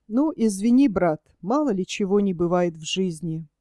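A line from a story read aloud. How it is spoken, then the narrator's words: Quiet. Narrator (Russian): Спустя немного сказал тихо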